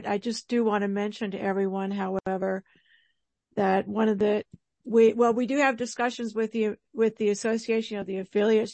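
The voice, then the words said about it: Strained, failing voice. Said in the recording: “My voice is going on me tonight.”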